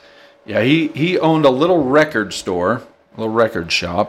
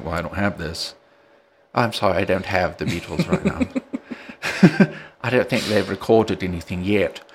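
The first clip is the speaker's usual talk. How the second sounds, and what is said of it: Impression of a record shop owner. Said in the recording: “That's actually a good impression.”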